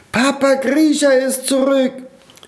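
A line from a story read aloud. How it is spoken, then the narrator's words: Small children shouting. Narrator (German): schrien einige kleine Eiskristallkinder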